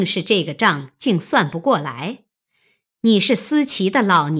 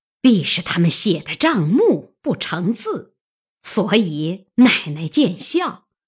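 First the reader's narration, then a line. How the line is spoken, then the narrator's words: Laughing. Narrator (Chinese): 凤姐看着又笑，她便说道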